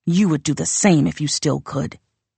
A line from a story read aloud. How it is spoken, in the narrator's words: he snapped